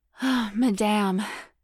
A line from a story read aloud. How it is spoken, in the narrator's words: panted